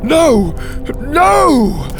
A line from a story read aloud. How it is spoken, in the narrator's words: Dante cried